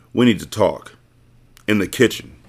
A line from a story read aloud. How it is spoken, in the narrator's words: said